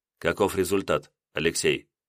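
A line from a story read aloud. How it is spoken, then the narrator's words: Quiet question. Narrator (Russian): тихо спросил он у меня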